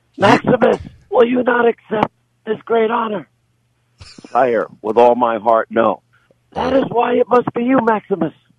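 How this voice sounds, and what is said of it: Imitates film characters' voices. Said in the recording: “That's my that's my best imitation.”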